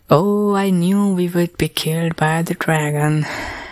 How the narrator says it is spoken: Kai sighed and mumbled to himself

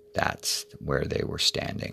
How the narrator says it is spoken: he smiled gently

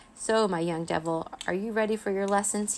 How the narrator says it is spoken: He wheezed

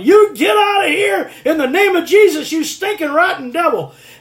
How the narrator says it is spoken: All she could hear was somebody screaming and yelling

